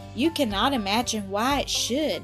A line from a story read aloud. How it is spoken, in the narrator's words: he went on, smiling sadly